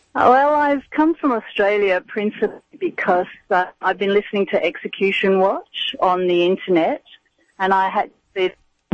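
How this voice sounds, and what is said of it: Australian accent. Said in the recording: “two ladies here from Australia ... I love your accent.”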